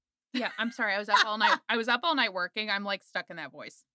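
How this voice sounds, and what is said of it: Usual voice. Nothing is said of it.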